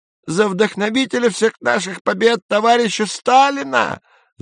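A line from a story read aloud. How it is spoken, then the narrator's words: Yelling. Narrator (Russian): заорал Изя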